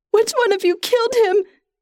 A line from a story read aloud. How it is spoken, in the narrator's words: She cries